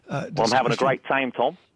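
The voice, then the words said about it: Put-on Australian accent. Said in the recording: “I can do a great Australian accent.”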